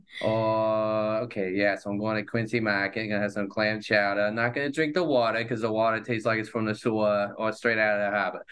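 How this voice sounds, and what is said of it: Put-on Boston accent. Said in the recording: “let me just get into like a Boston accent here.”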